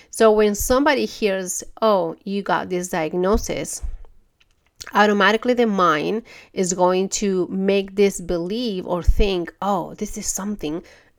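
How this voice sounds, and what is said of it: Stuffy congested voice from cold. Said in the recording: “I got a little cold, so I'm a little stuffy, and that's why my voice is kind of different”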